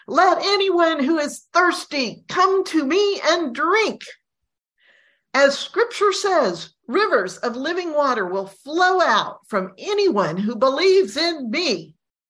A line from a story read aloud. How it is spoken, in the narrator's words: Jesus shouts